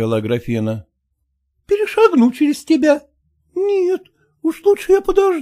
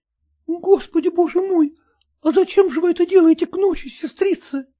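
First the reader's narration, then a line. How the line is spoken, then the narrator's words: Timid question. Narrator (Russian): робко спросила она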